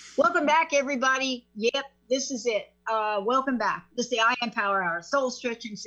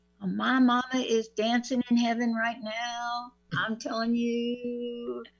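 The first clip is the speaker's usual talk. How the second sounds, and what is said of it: Put-on Southern drawl. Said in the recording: “You see how easy it is for me to get that southern draw? ... I'm channeling my stepmama.”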